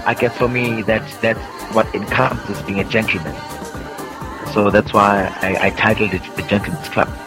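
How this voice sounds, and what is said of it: Speaks with a noticeable accent. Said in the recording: “your accent. It's too much.”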